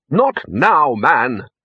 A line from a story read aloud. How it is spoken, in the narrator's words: snapped the Arch-Chancellor